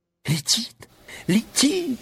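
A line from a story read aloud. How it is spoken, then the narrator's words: Sudden shriek. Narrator (Russian): вдруг взвизгнула Элли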